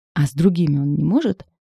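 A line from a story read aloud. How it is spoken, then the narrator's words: Exclaiming. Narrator (Russian): воскликнула она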